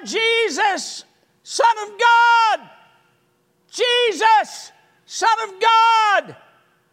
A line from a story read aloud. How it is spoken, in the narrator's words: he is yelling out